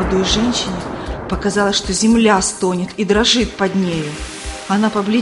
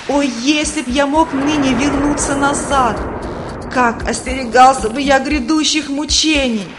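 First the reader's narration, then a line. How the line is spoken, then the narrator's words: Wailing. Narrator (Russian): Третий вопил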